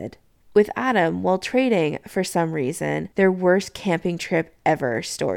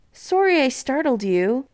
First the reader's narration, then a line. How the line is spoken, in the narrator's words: he half yelled out the window